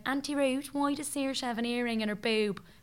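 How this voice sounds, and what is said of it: Put-on Dublin accent. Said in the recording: “Doing a Dublin accent there... That was good.”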